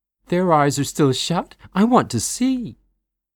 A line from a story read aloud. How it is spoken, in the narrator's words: Natalie squeals